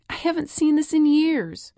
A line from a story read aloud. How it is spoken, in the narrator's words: Mom exclaiming